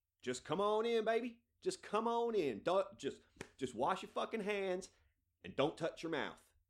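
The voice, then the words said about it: Put-on American hillbilly accent. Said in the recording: “I don't know why I'm doing an American accent, but it just seems like I need to do sort of a hillbilly accent”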